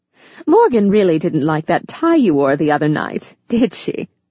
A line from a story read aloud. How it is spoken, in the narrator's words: Ava said, with a sparkling laugh that turned heads